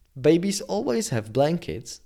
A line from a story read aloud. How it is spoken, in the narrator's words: answered the nurse